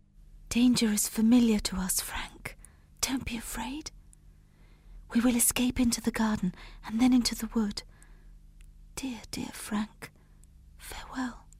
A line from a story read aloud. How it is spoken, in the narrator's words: She whispered